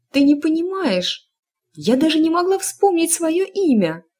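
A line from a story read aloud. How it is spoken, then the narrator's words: Distressed cry. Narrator (Russian): вскрикнула Эск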